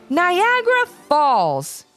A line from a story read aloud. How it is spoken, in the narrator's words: they shouted in unison